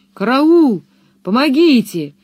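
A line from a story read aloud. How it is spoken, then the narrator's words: Terrified screaming. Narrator (Russian): вопил он, полумертвый от страха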